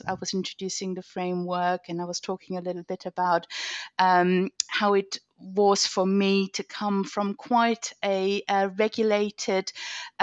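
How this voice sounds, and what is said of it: German accent. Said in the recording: “Germany, if you haven't picked up the accent yet”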